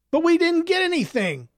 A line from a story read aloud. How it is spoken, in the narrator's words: Clovis whined